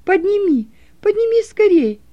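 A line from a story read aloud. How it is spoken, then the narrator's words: Shouted. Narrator (Russian): крикнула Роза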